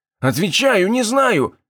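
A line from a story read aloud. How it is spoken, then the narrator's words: Exclaiming. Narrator (Russian): воскликнул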